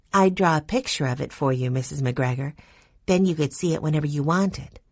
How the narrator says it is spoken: Violet said in her gentle voice

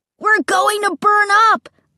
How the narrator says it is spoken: Luke screamed

